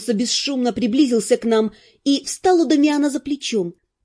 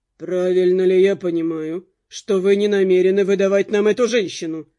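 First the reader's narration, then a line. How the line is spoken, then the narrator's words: Even-voiced question. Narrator (Russian): ровным голосом спросил он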